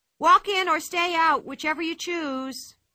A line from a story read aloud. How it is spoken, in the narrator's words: shouted Pippi